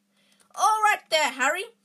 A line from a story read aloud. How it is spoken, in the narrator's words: yell